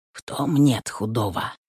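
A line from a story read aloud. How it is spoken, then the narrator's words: Whisper. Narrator (Russian): шепнул ей муж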